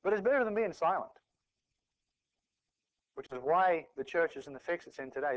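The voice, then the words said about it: Australian-New Zealand accent. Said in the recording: “you probably noticed the accent. I was born in New Zealand, but I spent most of my life growing up in Australia... love the accent”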